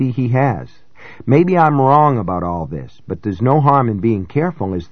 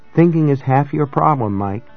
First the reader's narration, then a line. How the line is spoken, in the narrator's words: she said and laughed again